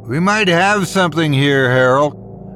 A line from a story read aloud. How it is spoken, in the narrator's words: I shouted out bitterly over the sound of the lapping waves